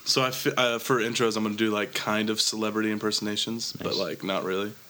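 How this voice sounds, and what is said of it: Sick-sounding voice. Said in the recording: “I'm almost done being sick... my voice sounds slightly less terrible than yesterday, you can tell, probably.”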